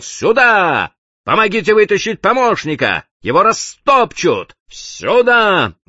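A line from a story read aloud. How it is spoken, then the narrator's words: Desperate yell, boatswain. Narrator (Russian): Боцман отчаянно заорал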